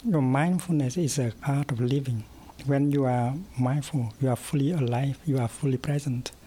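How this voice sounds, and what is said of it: Vietnamese-French accent, hard to follow. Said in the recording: “his Vietnamese-French accent difficult to follow at first”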